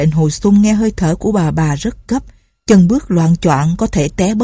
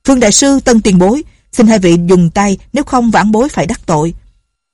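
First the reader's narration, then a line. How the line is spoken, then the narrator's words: Loud. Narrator (Vietnamese): Lệnh Hồ Xung lớn tiếng nói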